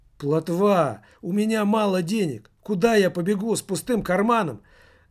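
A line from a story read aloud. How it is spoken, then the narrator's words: Shouting back. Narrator (Russian): закричал в ответ Спица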